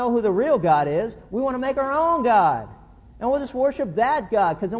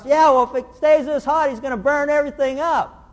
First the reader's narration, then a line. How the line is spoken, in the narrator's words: the pessimist farmer yells across